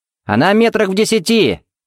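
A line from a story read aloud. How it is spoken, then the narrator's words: Shout. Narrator (Russian): крикнул Тед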